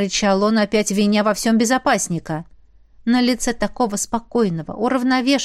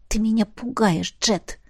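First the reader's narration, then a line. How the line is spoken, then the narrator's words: Whisper. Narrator (Russian): прошептала я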